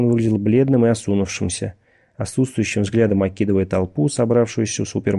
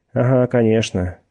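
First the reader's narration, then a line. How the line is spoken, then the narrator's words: Gloomy agreement. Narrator (Russian): мрачно согласился Пирсон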